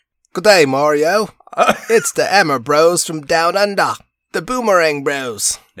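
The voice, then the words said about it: Put-on Australian accent. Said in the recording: “can you do that with an Australian accent? ... Nailed it. That was perfect Crocodile Dundee.”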